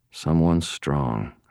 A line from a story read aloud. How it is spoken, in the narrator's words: I muttered